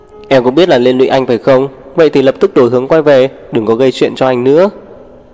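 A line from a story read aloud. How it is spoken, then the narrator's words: Angry barking. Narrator (Vietnamese): Sắc mặt Lục Bất Thâm càng trở nên khó coi, anh quát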